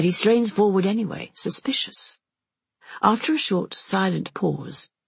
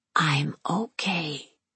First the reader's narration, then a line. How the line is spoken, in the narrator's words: She whispers